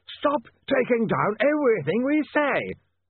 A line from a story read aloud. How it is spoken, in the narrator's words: yelled Slant